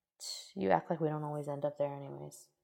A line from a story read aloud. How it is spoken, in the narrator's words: grumbled